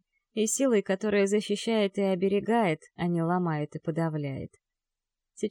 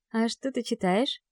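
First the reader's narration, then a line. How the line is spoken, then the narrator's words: Gentle question. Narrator (Russian): спрашиваю ласково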